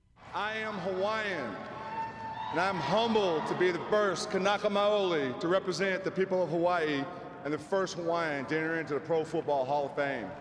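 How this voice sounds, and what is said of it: Speaks with a twang. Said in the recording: “love that twang.”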